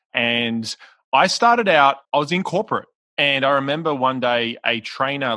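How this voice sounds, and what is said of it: Australian accent. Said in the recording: “I'm Australian, which you can probably hear my accent”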